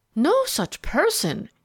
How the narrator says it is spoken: he exclaimed

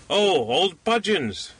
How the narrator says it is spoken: cried the little man

